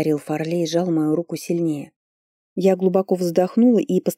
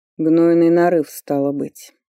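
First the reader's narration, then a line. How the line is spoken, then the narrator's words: Slow, through teeth. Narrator (Russian): медленно процедил Фарлей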